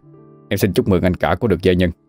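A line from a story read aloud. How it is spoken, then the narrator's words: Cold reply. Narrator (Vietnamese): Kim Kha lấy lại sự lạnh lùng mà đáp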